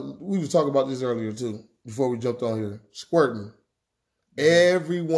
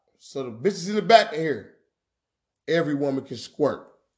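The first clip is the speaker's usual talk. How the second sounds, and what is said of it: Speaking louder. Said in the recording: “I'm gonna say it louder.”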